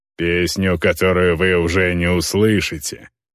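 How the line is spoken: Male growl. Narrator (Russian): прорычал один из мужчин Илски, тот, что с длинным топором

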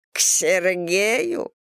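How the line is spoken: Deep belly laugh. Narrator (Russian): Гурова утробно расхохоталась

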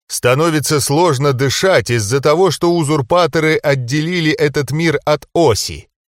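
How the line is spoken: Loud. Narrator (Russian): громко произнес Кэрилор

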